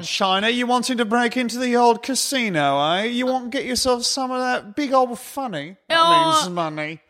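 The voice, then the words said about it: Don Cheadle's bad British accent. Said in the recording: “Space black man with British accent... Insufferable... the British accent man... Is that Don Cheadle?... the second he opens his mouth, he's like, oh, no.”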